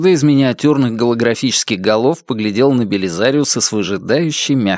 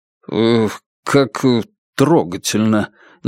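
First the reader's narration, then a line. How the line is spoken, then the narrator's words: Uncertain. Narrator (Russian): неуверенно сказал Белизариус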